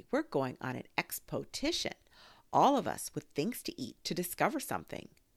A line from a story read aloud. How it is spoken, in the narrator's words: said Pooh excitedly